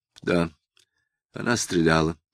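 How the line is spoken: Dry reply. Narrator (Russian): сухо ответил Самгин

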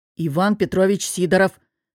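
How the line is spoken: Hissing through clenched teeth. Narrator (Russian): сквозь стиснутые зубы прошипел мудила

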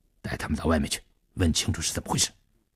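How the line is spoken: Low commanding voice. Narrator (Chinese): 低声命令他那两个马仔

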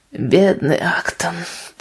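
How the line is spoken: Low voice, heavy sigh. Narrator (Russian): произнес он вполголоса с тяжелым вздохом

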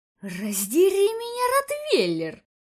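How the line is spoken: Surprised hiss. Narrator (Russian): только успел прошипеть ему вслед удивленный комиссар

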